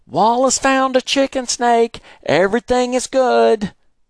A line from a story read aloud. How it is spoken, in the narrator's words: Daddy yelled back